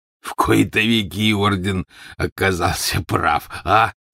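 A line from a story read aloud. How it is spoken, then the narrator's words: Stocky man, hoarse chuckle. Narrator (Russian): произнес ... коренастый мужчина и издал хриплый смешок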